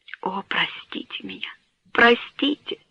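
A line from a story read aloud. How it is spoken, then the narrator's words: Hoarse broken whisper. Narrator (Russian): прошептал он хриплым и разбитым голосом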